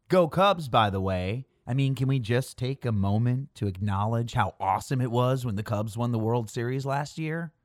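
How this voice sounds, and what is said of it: Chicago accent with hard A. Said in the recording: “30 miles outside of Chicago, if you couldn't tell from my hard A accent”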